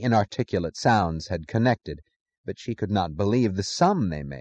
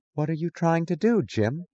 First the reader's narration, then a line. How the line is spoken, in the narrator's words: she asked, her voice incredulous and distant